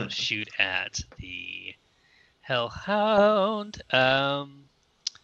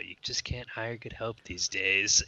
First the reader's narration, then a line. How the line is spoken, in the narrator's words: sigh and go